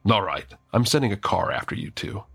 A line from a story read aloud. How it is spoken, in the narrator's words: She lets out a snort and says